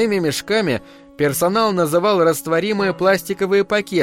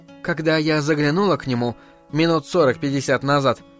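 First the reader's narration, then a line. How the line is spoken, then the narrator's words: Plain. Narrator (Russian): сказала Джен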